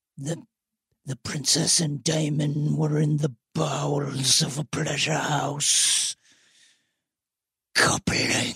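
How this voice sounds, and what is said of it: Throaty, clipped Rhys Ifans impression. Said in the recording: “Reese Ifans, very throaty, clipped accent, incredible.”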